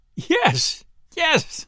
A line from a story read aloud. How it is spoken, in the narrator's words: she stammered out, almost choking with laughter